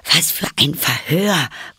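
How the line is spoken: Panting while running. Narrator (German): keuchte Alice beim Rennen

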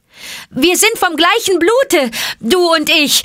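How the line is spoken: Quick call, snake cry. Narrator (German): rief Mowgli schnell, den Schlangenruf gebend

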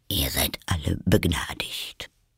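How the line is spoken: King speaking quietly. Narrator (German): den König leise zu der ganzen Versammlung sagen

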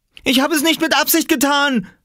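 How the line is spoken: Shouted. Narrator (German): schrie Oskar

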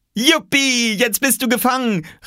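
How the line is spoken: Called out. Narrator (German): rief Oskar

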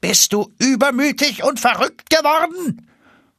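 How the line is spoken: Count calling upward. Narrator (German): Der Graf rief zu Eulenspiegel hinauf

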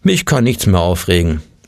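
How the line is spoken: Plain. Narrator (German): sagte er immer

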